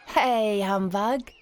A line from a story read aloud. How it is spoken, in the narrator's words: shouts Billy